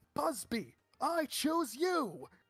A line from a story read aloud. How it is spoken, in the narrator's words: swallow hard, and yell